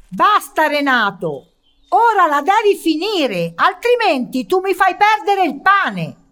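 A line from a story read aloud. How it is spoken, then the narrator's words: Shouting insults. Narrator (Italian): urlando di contro tutti gli improperi che conosceva, e gli disse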